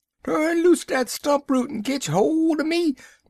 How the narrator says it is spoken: Brer Fox, he holler back

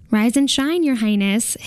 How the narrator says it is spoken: his manservant says brightly

